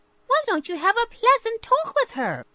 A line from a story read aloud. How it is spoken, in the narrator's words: Chirpy Cricket suggested